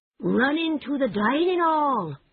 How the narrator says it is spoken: cried the Mole

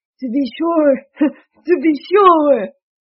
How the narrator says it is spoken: he called out in a great big voice

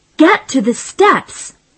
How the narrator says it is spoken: Jeff shouted

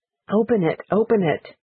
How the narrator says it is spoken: said Great Aunt Stefina, and her voice was shaking

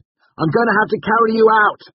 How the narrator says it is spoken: I shouted

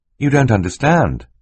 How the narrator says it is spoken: Klaus said gently

